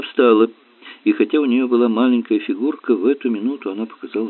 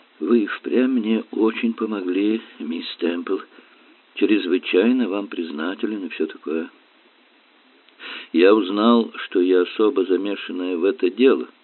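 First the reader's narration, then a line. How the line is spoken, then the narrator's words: Soft voice. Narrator (Russian): сказала она мягким голосом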